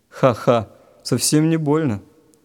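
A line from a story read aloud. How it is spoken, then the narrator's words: Cheerful laughing. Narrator (Russian): Весело засмеялся Вадик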